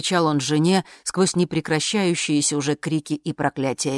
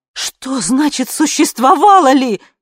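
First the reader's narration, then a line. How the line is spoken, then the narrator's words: Wife shouting. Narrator (Russian): кричала жена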